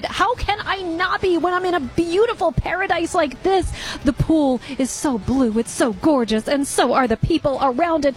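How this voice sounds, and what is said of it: Excited, upbeat delivery. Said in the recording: “why do you sound so excited?”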